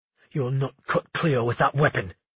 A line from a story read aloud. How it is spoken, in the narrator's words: he snarled